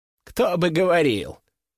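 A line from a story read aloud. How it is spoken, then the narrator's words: Snorting. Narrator (Russian): хмыкнул Борис Андреевич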